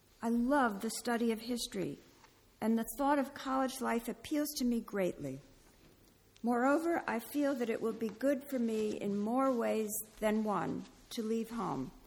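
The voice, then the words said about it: American accent. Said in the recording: “how awkward this sounds in an American accent”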